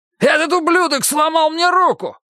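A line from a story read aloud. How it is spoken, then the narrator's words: Yelling. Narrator (Russian): завопил Майк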